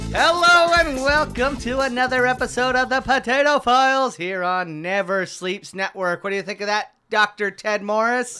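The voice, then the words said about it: Put-on radio announcer voice. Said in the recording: “Do you talk like this the whole time? ... it's my radio voice”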